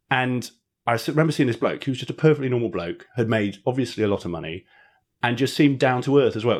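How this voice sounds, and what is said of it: Posh English public-school accent. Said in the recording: “all of the boards sounded like I do now. It sounded like they're posh public school boys ... develop the mannerisms, develop the accent”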